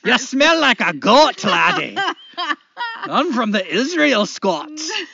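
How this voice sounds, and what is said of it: Put-on Scottish accent. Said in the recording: “She started sounding Scottish.”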